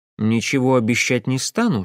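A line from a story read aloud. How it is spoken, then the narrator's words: Plain. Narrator (Russian): сказал я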